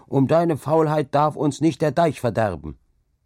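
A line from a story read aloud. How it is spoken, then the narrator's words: Stern call. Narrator (German): rief er dann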